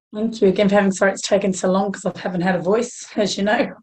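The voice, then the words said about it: Croaky, hoarse voice. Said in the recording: “I'm still a bit croaky, so apologies if I sound like an old smoker”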